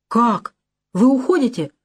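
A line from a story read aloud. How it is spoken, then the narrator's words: Disappointed exclamation. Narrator (Russian): воскликнул Кафлин, и в голосе его прозвучало неподдельное разочарование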